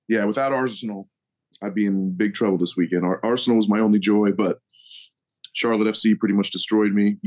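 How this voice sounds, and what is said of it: Hoarse voice. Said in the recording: “You can hear probably the hoarseness in my voice. I screamed my head off at a watch party”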